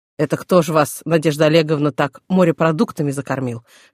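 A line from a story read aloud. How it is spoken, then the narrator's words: Burly man's chuckle. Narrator (Russian): хохотнул детина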